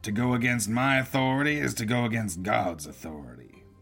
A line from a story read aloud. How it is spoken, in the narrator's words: the sheriff bellowed